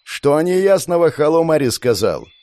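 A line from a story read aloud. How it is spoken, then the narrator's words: Yelling. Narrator (Russian): заорала Глория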